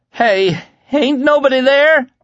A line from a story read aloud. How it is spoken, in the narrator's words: Lloyd cried, his voice breaking